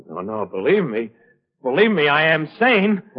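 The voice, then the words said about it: Loud shouting voice. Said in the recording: “Why shout? ... You were shouting. Rather loudly.”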